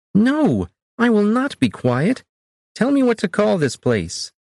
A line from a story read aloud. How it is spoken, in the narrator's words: Anzik shouted in Akkadian